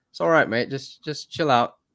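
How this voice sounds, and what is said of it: Bad put-on Australian accent. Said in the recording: “My my worst Australian accent.”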